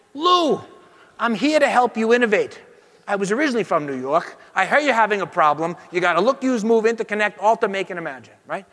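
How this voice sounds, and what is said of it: Put-on New York accent. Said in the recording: “Who's offended by my New York accent?”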